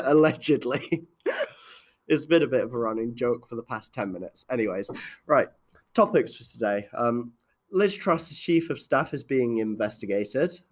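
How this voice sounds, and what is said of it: Sick, unwell-sounding voice. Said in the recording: “as you can probably tell from my voice, I am quite unwell”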